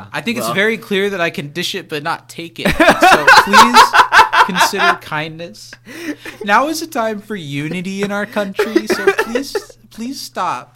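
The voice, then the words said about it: Mock politician voice. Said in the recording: “That was our impression of every Republican lawmaker”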